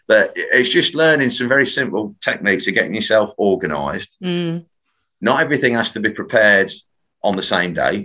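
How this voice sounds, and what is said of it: Leicester English accent. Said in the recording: “It's horrible in a Leicester accent.”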